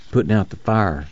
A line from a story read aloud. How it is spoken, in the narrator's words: Muley whispered